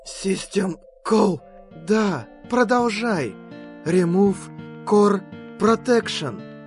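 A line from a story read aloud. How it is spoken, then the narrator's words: Hoarse. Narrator (Russian): собственный голос, хрипло произнесший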